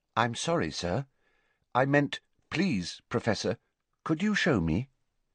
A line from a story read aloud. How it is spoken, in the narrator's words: Riddle's he said, in an unrecognisably polite voice